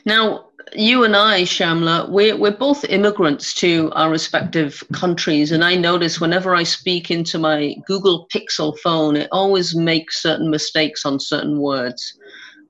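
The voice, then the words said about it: Slight English-Irish accent. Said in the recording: “I don't have the right Canadian accent. I've still got a bit of an English-Irish accent.”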